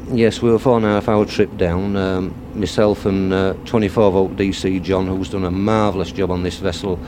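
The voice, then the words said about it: Yorkshire English accent. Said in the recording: “I can tell from your accent, you're not an Essex man, are you? You in fact travel down from Yorkshire”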